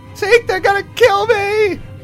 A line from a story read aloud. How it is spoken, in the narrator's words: Olga scream